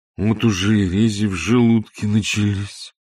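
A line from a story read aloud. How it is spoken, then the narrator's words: Sad. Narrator (Russian): сообщал он печально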